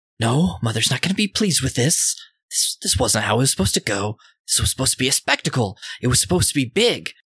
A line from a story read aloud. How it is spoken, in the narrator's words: they are kind of panting ... and just saying